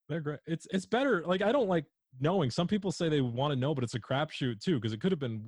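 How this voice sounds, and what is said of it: Usual voice. Nothing is said of it.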